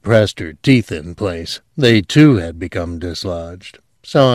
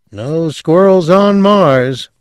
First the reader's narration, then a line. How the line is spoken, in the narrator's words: Milt Biskell said sleepily